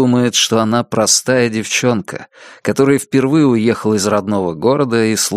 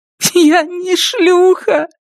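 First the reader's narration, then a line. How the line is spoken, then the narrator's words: Starting to sob. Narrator (Russian): говорит Элис, начиная рыдать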